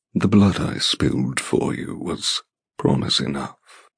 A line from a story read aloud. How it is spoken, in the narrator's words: he murmurs